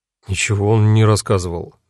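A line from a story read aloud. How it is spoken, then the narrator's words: Gloomy grumble. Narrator (Russian): мрачно буркнул я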